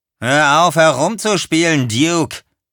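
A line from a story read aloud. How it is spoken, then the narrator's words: Call. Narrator (German): rief Earl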